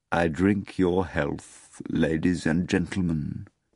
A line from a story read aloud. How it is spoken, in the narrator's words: Volant said softly